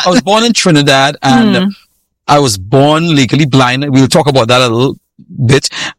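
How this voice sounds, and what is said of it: Trinidadian Caribbean accent. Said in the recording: “I was born in Trinidad, and people hear my accent, and you know where they think I'm from. They said, you're from Jamaica, man.”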